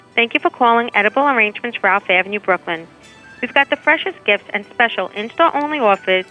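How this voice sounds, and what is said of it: Brooklyn accent. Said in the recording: “I do quite like that Brooklyn accent on her. ... It's a nice accent, right?”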